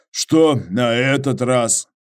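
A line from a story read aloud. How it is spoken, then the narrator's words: Sighing question. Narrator (Russian): Иваныч вздохнув, спросил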